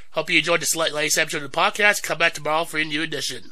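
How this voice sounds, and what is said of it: Voice affected by a cold. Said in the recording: “So sorry for the cold, sorry for my voice, I'm getting better.”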